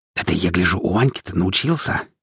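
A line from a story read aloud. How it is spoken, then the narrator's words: Sly whisper in ear. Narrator (Russian): ехидно шепнул мне на ухо Макс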